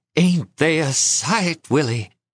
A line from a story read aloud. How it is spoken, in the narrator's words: in a strong, trembling voice she said